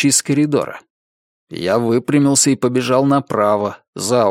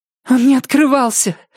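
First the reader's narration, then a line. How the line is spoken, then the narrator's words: Breathless exhale. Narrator (Russian): выдохнула она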